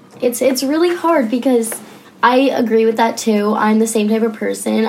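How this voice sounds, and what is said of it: Hoarse, strained voice. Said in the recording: “I'm totally losing my voice.”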